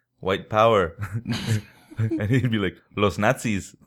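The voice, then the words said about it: Put-on Mexican accent. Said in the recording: “in a very Mexican accent ... yelling, not really too loud”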